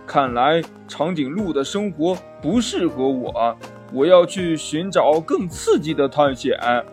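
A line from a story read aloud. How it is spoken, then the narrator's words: Sighing exclamation. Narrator (Chinese): 小猪感叹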